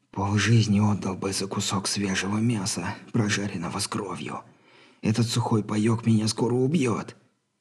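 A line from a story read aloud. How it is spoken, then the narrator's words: Barely audible breath. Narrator (Russian): едва слышно выдохнул Билли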